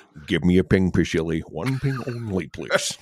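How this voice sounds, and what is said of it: Sean Connery impression. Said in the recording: “Sean Connery, a known Scotsman, performing as a Russian ... this Irish accent ... he has so many quotable lines in here”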